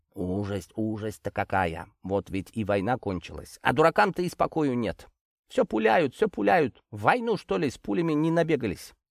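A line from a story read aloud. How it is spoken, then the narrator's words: Muttering to herself. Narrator (Russian): Бормоча так, она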